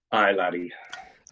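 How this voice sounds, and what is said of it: Put-on Scottish accent. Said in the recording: “If you speak with a good Scottish accent”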